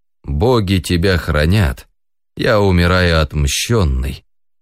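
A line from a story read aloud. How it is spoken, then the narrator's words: Dying sigh. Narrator (Russian): вздохнул в последний раз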